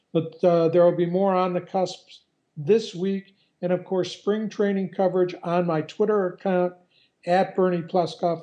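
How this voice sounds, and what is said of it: Hoarse, fading voice. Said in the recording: “You can hear I'm losing my voice still.”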